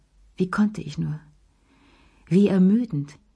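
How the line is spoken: Sighing. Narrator (German): seufzte sie

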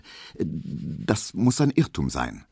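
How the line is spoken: Stuttering. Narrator (German): stotterte Emil Kubinke

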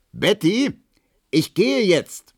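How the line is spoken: Bellowed through the flat. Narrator (German): brüllte durch die Wohnung

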